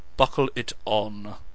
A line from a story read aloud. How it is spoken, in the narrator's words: said Lance testily